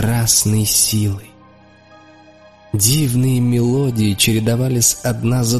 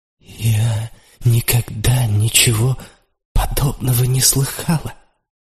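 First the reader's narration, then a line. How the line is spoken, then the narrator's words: Trembling female whisper. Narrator (Russian): дрожащим голосом прошептала она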